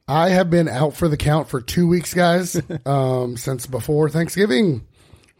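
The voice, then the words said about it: Rough, hoarse sick voice. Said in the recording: “my voice is a little rough”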